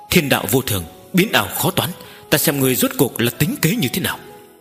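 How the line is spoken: Muttered. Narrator (Vietnamese): Nữ hoa lẩm bẩm nói

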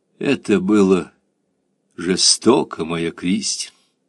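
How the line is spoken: Tender and sad. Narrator (Russian): сказал он ласково и печально

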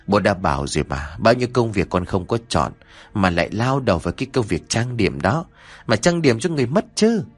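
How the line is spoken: Sighing old man. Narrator (Vietnamese): ông Trấn thở dài nhìn Nhã Kiều mà nói

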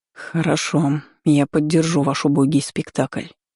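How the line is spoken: Through gritted teeth, dragon. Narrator (Russian): сквозь зубы процедил дракон

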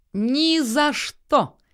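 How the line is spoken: Shouted. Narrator (Russian): крикнула Акка

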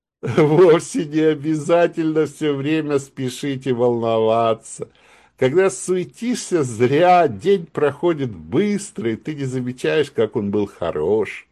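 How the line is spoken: Laughing reply. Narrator (Russian): Мишка засмеялся, ответил

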